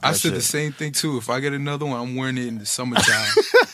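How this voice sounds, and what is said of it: Sexy-sounding male voice. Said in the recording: “with that voice ... that nigga sounds sexy. That's a sexy voice”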